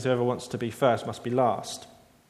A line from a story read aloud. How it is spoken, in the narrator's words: he gently rebukes them again and says